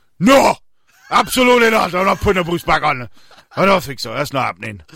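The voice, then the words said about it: Put-on Welsh accent, fairly decent. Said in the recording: “good job with the accent. That was actually okay. ... I think just stick to the Welsh.”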